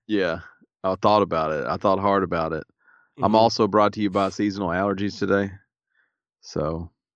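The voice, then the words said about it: Raspy, stuffy congested voice. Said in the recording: “I'm a little raspy. I'm a little stuffy.”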